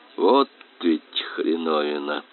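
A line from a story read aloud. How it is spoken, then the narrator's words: Tired. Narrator (Russian): устало сказал Суир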